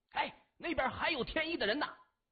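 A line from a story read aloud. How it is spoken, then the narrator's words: Loud cry. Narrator (Chinese): 其中一个汉子大叫一声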